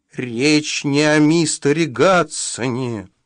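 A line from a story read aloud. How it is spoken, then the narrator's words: Hissing. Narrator (Russian): прошипел он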